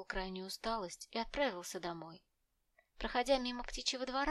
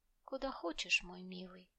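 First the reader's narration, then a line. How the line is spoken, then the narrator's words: Solemn and quiet. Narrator (Russian): отвечала она торжественно и тихо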